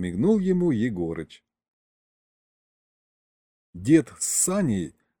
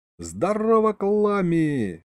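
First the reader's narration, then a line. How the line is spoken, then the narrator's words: Loud yell. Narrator (Russian): заорал я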